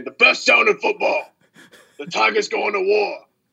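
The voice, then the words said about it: Imitates another person's voice. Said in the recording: “best impression”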